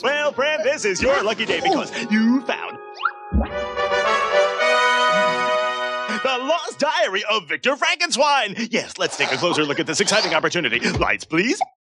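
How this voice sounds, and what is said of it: Announcer-style character voice. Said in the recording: “That announcer voice”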